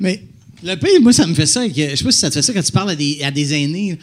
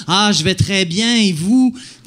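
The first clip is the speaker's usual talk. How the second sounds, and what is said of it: Overly articulated old-person voice. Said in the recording (French): “comme articuler plus ... t'as une voix de. Tu sais. Euh, t'as un accent de grand-parent”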